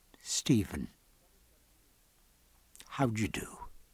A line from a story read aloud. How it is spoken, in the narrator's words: And very gently